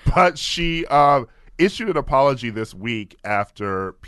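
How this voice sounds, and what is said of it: Usual voice. Nothing is said of it.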